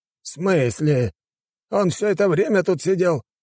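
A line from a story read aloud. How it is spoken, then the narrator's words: Exclamation. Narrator (Russian): воскликнул мужчина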